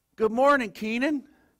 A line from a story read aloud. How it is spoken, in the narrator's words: he says, real sweetly